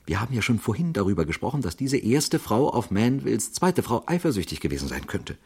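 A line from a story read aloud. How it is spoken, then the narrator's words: Quiet excited remark. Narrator (German): bemerkte er leise und aufgeregt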